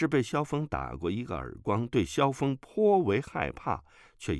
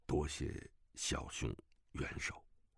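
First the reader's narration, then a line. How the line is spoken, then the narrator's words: Low voice. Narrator (Chinese): 楚万里低声说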